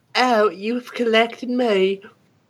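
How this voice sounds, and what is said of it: Put-on Southern accent. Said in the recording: “Oh, wait, that was Southern, my bad.”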